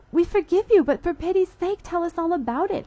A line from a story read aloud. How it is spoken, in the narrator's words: I cried